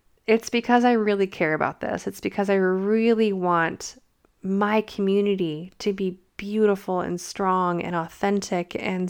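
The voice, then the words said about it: Slightly strained, fading voice. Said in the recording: “I've been talking for a really long time and losing my voice a little bit”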